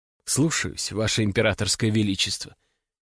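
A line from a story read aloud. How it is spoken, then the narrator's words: Barely audible quiet reply. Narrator (Russian): тихо отвечает она, так что больше ее никто не слышит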